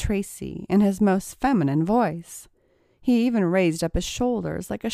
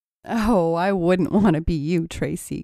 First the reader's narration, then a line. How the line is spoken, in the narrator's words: giggled Stacy